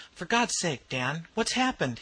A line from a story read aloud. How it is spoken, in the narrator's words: he exclaimed